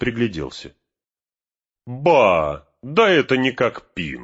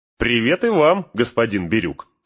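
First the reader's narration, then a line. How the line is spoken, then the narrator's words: Plain. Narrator (Russian): сказал Пин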